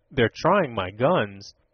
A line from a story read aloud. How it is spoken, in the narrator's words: observed Tom grimly